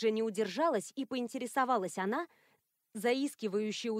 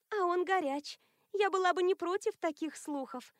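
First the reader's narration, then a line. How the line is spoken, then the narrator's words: Sigh. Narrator (Russian): вздохнула Элоиза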